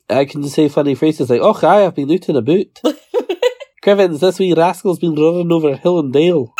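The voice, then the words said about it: Scottish accent. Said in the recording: “listen to our accents. ... I'm from Scotland.”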